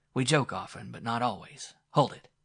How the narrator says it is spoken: he snapped

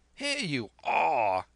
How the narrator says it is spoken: he cried

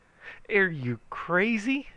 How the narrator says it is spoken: he hollered

